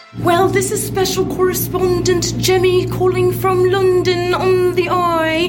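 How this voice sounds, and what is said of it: Terrible put-on British accent. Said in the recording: “doing a terrible British accent”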